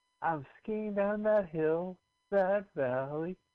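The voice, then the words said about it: Sung imitation of another person's voice. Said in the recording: “my impression of Kate Bush skiing”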